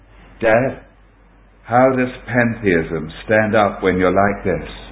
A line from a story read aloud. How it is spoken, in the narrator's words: I quietly said to my father for the first time